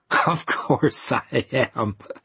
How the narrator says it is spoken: she laughed

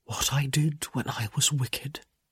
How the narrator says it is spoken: he whispered

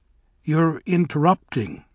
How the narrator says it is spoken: said Bok

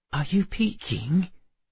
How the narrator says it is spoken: Emma whispered

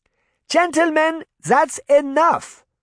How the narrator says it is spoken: Granny shouted

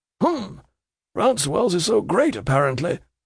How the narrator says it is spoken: mutters the trooper

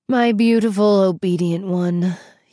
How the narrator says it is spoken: he sighed

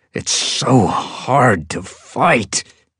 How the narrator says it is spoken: he said through clenched teeth

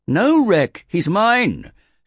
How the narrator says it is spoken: shouted Virai

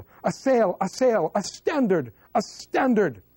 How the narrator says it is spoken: the Cypriots yell

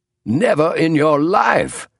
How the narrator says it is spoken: cried Clemens

